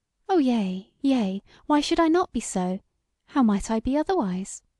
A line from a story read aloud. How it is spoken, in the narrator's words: smiled sweetly, and somewhat foolishly, as a man luckily in love, and said